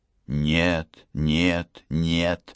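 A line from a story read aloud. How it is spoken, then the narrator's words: Women hissing angrily. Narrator (Russian): злобно шипели женщины в зале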